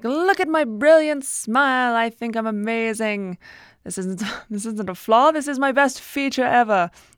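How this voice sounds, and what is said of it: Put-on accent. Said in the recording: “you also gain an accent”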